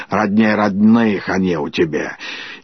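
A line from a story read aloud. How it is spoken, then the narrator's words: Old friend's grumbling. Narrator (Russian): Давняя подруга ее Хрунычиха, осуждая или радуясь, ворчала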